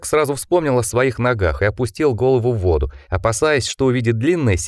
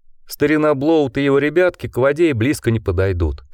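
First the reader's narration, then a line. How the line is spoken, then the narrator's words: Said with laughter. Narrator (Russian): сказал ему Спиди и рассмеялся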